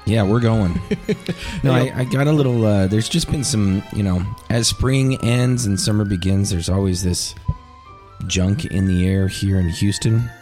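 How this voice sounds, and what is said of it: Raspy, deep sick voice. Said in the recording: “a little sick today ... it's messing with my voice. I now have this raspy, deep Darth Vader type of voice going on right now.”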